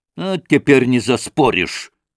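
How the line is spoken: Spiteful, angry. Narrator (Russian): сказал он злобно

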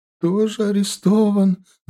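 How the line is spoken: Mother sobbing. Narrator (Russian): рыдала мать

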